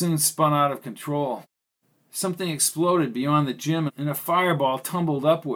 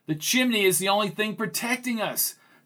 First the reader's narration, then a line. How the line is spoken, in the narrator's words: cried Greg